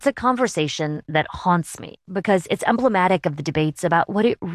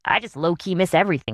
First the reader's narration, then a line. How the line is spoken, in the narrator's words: she said